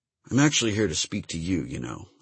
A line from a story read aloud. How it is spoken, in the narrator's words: I said in a low voice